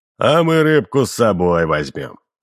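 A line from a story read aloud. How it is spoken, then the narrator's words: Deep-voiced laughing man. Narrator (Russian): засмеялся директор густым голосом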